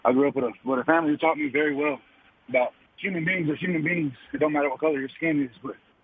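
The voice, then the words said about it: Out of breath, breathy speech. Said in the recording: “I'm a little bit out of breath.”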